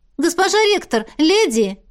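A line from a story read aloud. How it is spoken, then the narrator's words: Exclaimed. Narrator (Russian): воскликнула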